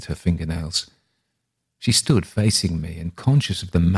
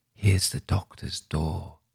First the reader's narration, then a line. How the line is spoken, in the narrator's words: whispered